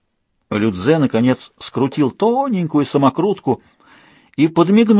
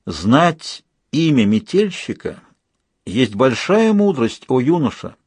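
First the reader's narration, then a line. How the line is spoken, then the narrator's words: Plain. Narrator (Russian): сказал наставник додзё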